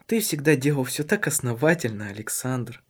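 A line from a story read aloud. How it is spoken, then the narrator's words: Tender. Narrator (Russian): нежно произнесла она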